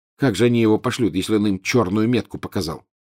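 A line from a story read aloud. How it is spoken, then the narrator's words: Plain question. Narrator (Russian): спросил Гарри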